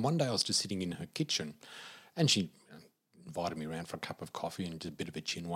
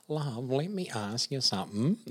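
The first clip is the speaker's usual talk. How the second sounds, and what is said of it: Imitated Australian accent. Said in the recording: “in her beautiful Aussie accent”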